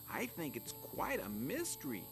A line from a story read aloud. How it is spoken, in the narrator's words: Flap chirped